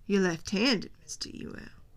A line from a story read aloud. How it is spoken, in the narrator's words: said Judge Taylor